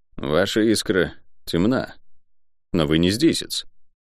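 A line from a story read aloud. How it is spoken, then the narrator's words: Quiet young man. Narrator (Russian): молодой человек тихо сказал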